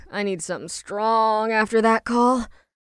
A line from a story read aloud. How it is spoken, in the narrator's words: Ash answered with a groan